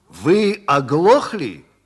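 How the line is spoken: Angry barking. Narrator (Russian): сердито пролаял мистер Хэк

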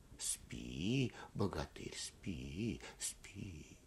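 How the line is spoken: Whispered repetition. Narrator (Russian): шепотом повторяют

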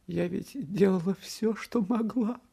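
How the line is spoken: Mother sobbing. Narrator (Russian): всхлипывала мать

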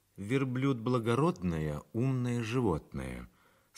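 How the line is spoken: Plain. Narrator (Russian): сказала Бернара

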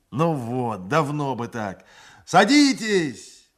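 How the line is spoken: Shouted. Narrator (Russian): закричал

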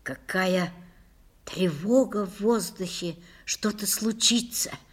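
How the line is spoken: Whispering. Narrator (Russian): прошептала Лиля

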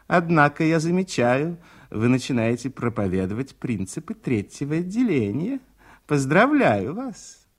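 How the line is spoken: Mocking, smiling. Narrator (Russian): она насмешливо улыбается и говорит

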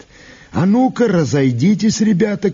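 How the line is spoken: Shout. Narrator (Russian): крикнул он

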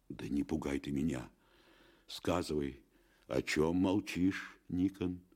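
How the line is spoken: Anguished desperate pleading. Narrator (Russian): взмолился отец Матвей, изнемогая от ужасных догадок

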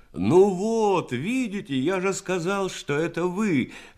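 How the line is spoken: Joyful exclamation. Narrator (Russian): воскликнул Серов обрадованно

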